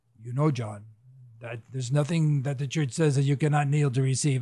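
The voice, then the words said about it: Poor put-on Polish accent. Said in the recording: “he had a great accent ... that was a bad accent ... that was a very poor Polish”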